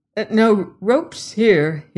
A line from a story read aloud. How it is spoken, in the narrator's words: stammered